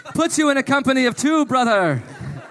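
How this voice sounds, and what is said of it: Strong put-on Irish accent. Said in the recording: “Your Irish accent is so strong right now.”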